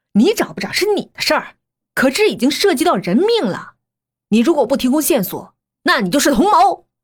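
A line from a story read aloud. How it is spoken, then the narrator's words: Furious. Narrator (Chinese): 唐浪这下彻底怒了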